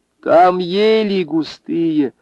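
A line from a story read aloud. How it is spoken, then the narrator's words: Shout. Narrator (Russian): закричала Анфиса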